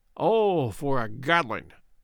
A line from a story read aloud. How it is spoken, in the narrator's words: groaned Good